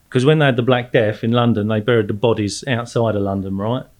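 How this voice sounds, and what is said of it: Southeast London English accent. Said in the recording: “you're not from Australia. You're a bit of a geezer ... I did grow up to the southeast of London, so hence the accent.”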